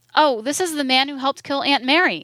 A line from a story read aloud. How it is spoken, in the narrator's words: she exclaimed